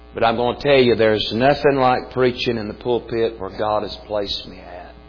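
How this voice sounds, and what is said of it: Weak voice. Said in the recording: “my voice is very weak this morning”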